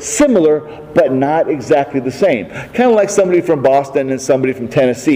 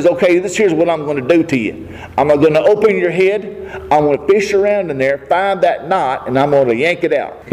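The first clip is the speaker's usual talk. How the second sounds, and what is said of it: Put-on Southern hill-country accent. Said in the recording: “if you have a southern accent, and if you're one of them people that comes from the hills, that's okay to talk like that”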